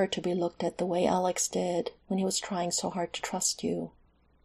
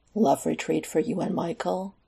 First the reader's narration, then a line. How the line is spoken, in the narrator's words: Alex scoffed